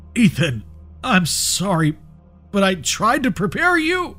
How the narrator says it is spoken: gasped in a faint voice

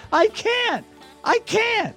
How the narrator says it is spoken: starts to get a little hysterical and screams

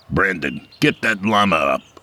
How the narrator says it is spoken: he barked

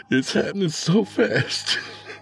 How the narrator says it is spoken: sobbed

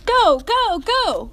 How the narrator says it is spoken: People in the stadium started shouting

